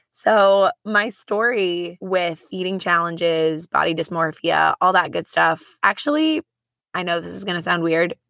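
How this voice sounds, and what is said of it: Raspy, hoarse voice. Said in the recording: “My voice, if you haven't already noticed, is a little raspy. ... trying to get it to a point where it sounded a little bit less raspy”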